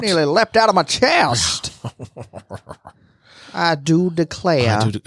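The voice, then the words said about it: Slow syrupy Savannah Southern accent. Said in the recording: “Molasses dripping just out of your mouth ... Sort of spilling out of your mouth ... Savannah accent”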